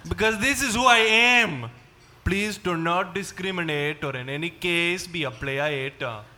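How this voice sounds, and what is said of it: Put-on Indian accent. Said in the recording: “You're not Indian. Why are you still using that accent?”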